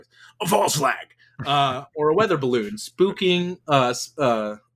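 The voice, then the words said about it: Alex Jones impression. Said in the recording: “to sound like Alex Jones. let me put on my Alex Jones voice.”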